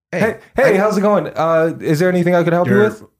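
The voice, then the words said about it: Loud salesman voice. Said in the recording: “The volume of your voice is here? ... Can you bring it down here, please?”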